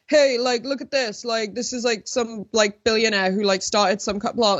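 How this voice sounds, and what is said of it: Imitates another person's voice. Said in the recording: “I love your impersonation of his voice, though... it should be more southern”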